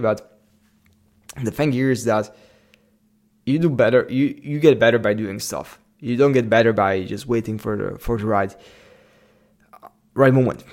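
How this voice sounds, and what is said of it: Slavic-accented English. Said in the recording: “maybe even my English wasn't that fluent as it is right now ... I sound like a Slav.”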